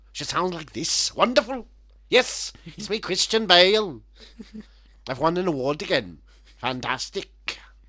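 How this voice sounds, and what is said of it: Imitates another person's voice, Welsh. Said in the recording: “what's up with his accent? Because he's gone full on now ... He's from fucking Wales ... Should they sound like?”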